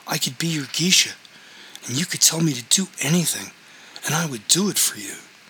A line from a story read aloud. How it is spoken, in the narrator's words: she said